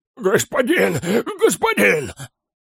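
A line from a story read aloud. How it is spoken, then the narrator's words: Terrified hoarse orc. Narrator (Russian): прохрипел орк, с ужасом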